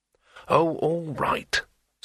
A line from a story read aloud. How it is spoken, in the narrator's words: said Rincewind irritably